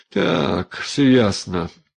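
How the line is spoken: Dull, muffled voice. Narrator (Russian): глухо вывернул Степан

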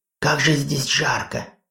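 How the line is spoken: Loud exhale. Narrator (Russian): Хона шумно выдохнула

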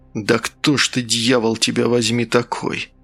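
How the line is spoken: Frightened whisper. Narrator (Russian): прошептал Асад

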